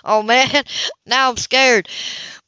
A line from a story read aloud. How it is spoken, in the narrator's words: He laughed